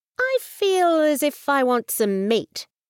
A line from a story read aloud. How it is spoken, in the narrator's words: he said slowly